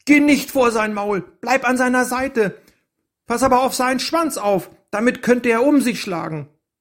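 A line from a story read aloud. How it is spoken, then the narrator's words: Called out. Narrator (German): Fluff rief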